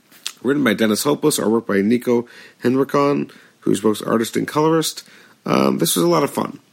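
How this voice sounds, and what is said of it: Hoarse, strained voice. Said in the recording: “I've already lost my voice”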